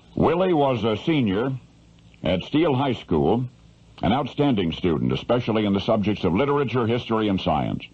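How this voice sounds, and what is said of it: Classic mid-American radio accent. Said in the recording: “classic radio mid-American accent”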